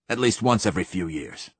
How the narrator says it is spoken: snapped the Admiral

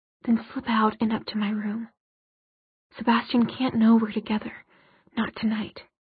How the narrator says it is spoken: he whispered

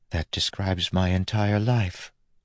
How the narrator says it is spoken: Steris said softly

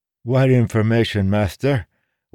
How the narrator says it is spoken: one of the old men said in an eager, lisping voice

